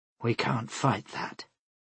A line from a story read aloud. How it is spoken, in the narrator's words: finally saying in a low voice